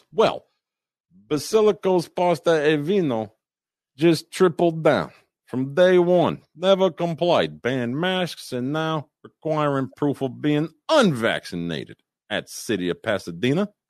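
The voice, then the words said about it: Poor Italian accent, sounds Russian. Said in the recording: “sounded more Russian to me. I don't think your Italian accent is any better than mine”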